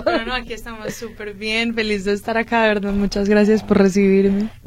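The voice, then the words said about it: Colombian Spanish accent from Medellín. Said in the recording (Spanish): “tu acento como que no lo ubico ... De Medellín, de Colombia ... qué bonito es el acento de los colombianos”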